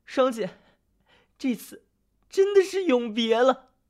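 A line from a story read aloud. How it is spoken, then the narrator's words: Tearful shout. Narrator (Chinese): 白玉楼顿时懵了，带着哭腔大喊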